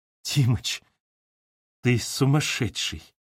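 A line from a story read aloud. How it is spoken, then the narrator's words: Happy whisper. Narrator (Russian): прошептала она таким счастливым шепотом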